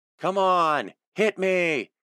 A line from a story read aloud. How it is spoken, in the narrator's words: he shouted